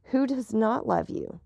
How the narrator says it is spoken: Valentine smiled sadly

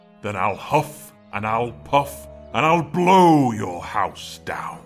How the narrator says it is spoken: growled the big bad wolf

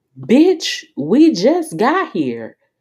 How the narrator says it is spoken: yelled Jackie's nosy ass over the club music

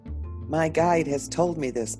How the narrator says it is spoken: Plotno shouted

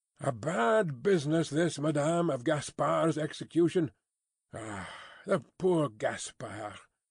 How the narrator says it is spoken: with a sigh of great compassion

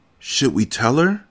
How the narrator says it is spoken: whispered

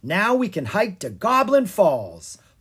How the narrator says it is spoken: Lucas said triumphantly

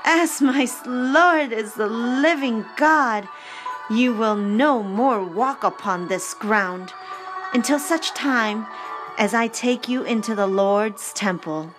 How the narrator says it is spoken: Anna exclaimed

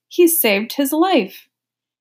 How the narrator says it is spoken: Maid, wife, and widow cried

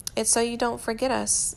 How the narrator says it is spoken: Louis admits, hating the way his voice wavers a little

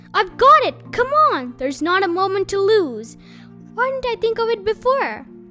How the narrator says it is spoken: He jumped up and shouted

